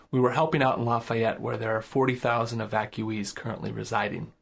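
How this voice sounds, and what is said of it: Weary, tired-sounding voice. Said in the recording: “my voice sounds a bit weary”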